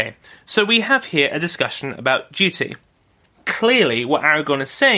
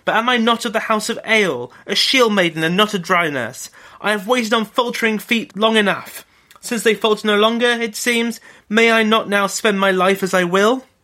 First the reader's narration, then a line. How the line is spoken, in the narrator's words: she cried